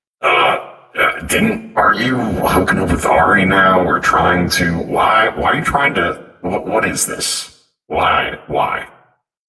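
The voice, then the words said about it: Distorted, hard-to-understand voice-changer voice. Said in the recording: “voice changer just for Nitro, because Ash can't understand you with the voice changer on”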